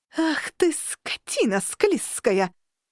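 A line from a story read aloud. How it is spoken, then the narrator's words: Outraged howl. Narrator (Russian): взвыла я, осознавая, что из-за какой-то драной пиявки веками страдал целый клан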